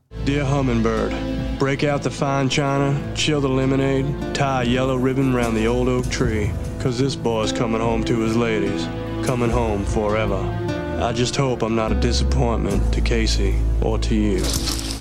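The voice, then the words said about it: Flawless American southern accent. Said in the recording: “Nick Cage, flawless accent ... southern”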